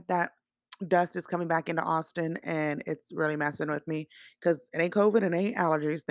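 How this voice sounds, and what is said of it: Hoarse voice. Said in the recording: “excuse my voice, guys. I don't know why it's so hoarse”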